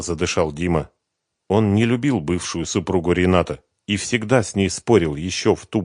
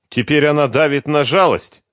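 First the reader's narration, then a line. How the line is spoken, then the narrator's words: Indignant. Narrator (Russian): возмущенно сказал Дима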